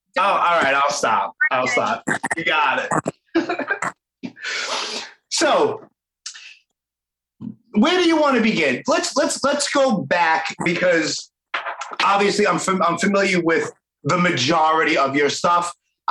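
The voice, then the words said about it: Brooklyn New York accent. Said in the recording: “my accent ... even from my own Brooklyn friends. I know I have it bad. I have a bad accent ... you have a great accent”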